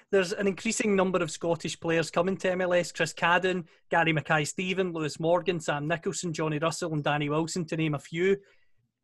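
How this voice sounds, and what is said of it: Scottish accent. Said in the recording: “based on my accent, I'm sure you can hear him from Scotland”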